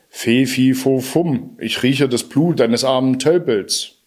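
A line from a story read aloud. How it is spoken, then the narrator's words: Giant roaring. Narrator (German): brüllte der Riese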